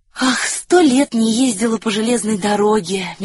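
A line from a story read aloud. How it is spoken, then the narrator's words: Dreamy sigh. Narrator (Russian): мечтательно вздохнула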